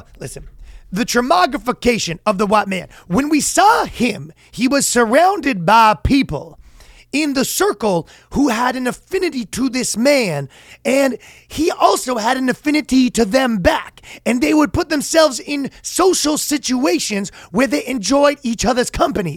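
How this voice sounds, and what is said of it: Slow, drawn-out professorial voice. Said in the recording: “my black intellectual and my white university professor are the exact same guy ... they take a long time. This is my one accent that I'm good at, is the taking a long time to say something that we all know what you're talking about”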